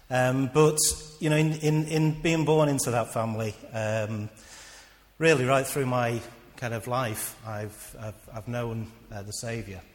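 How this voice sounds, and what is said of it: Emotional, choked-up voice. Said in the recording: “Don't know why I'm getting emotional.”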